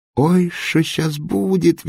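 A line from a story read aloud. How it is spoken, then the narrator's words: Squealing. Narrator (Russian): визжал он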